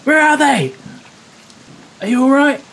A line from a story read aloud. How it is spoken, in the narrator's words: yell